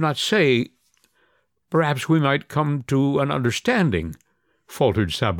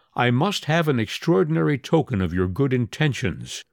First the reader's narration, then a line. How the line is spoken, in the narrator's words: The priest, in a firm tone, replied